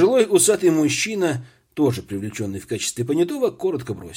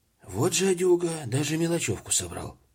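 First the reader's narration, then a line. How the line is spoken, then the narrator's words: Quiet young man. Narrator (Russian): тихо проговорил все тот же вихрастый паренек из понятых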